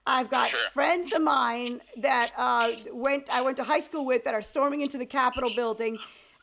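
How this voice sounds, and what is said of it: Southern US Georgia accent. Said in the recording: “I have an accent ... I have a Southern accent. I'm from Georgia”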